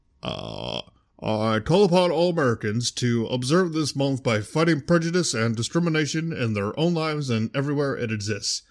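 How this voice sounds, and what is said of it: Obama impression. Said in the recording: “I should do my Obama impression ... flawless impression”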